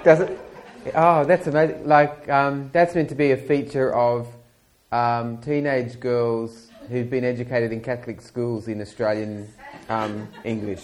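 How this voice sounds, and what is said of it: Rising intonation at sentence ends. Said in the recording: “why does your voice always go up at the end of a sentence? As if you're asking a question when, in fact, you're making a statement.”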